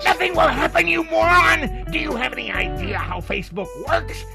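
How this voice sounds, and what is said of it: Surly, angry ranting comedian impression. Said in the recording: “put on my best Lewis Black attitude ... my Lewis Black impersonation? Was it surly enough?”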